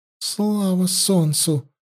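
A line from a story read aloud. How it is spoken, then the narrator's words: Princess breathing out. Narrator (Russian): выдохнула царевна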